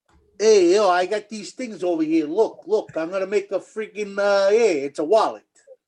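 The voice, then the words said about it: Italian Brooklyn accent impression. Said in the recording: “do your best impression of an Italian guy from Brooklyn selling balloons”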